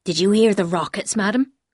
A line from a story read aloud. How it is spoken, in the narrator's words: he said